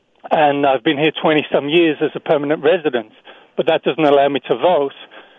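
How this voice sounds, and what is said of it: Non-native, English accent. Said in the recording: “As you can probably tell from my accent, I'm not native to this country ... in England”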